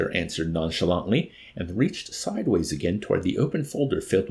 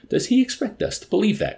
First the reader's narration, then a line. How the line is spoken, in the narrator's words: cried the major incredulously